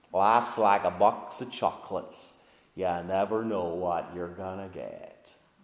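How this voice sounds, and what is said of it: Forrest Gump Southern accent impression. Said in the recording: “from the film Forrest Gump ... maybe it was the accent that did it”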